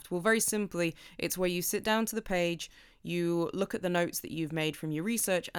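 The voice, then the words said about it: Short-A regional English accent. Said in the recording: “if you're posher than I am, you might call it a draft but my accent means I have to shorten that A”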